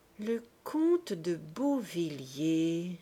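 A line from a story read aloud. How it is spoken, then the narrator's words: Slow, thinking aloud. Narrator (French): reprit-il lentement, réfléchissant tout haut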